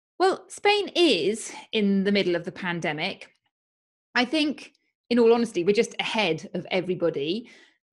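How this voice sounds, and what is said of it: British accent. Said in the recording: “who is British, as you will hear from her accent”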